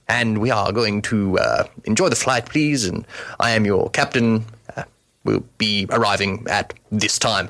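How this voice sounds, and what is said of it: Put-on British pilot accent. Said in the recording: “a good accent”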